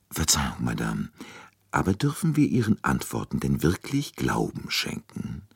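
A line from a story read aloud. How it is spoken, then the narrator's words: Very quiet question. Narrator (German): fragte Poirot sehr leise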